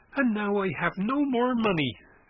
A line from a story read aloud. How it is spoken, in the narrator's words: exclaimed Christian excitedly